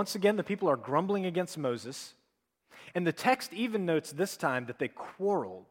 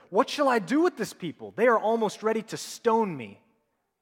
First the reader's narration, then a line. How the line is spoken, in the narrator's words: Moses cried to the Lord